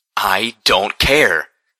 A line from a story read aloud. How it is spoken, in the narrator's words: I shouted crossly